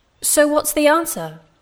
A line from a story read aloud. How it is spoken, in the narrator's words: the man shouted